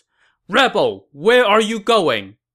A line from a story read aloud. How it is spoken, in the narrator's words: a general who wielded a saber and shouted from his horse